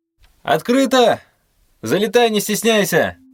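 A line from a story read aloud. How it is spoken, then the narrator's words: Distant shout. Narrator (Russian): Крикнул из глубины квартиры друг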